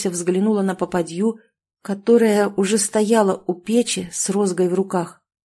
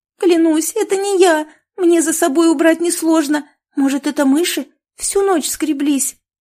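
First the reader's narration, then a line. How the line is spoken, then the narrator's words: Pleading, fearful, near tears. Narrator (Russian): С мольбой в голосе проговорила Маруся, чувствуя, что сейчас разрыдается от страха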